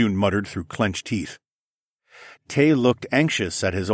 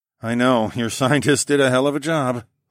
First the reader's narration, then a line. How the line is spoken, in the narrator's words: I sighed